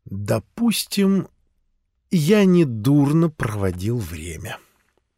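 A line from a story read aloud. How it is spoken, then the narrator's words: Lazy drawl. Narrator (Russian): лениво протянул Симс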